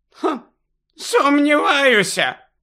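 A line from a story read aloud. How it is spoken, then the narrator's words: Shout from a tiny woman. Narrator (Ukrainian): крикнула крихітна професорка Марчбенкс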